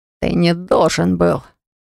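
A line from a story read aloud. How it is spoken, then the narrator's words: Furious growl. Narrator (Russian): зарычал бешено Рос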